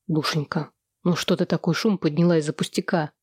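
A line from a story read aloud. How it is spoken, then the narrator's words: Timid. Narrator (Russian): робко произнес Сэм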